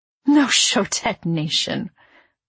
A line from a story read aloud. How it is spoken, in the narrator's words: my mother laughed a little